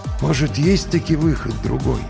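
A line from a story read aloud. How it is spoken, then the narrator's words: Quiet question. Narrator (Russian): тихо спросил Финист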